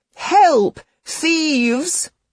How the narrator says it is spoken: shrieked out

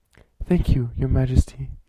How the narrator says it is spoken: Ensign Watsuki said

